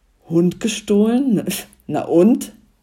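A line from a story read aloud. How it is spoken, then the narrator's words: Shouting back. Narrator (German): brüllte der Kutscher zurück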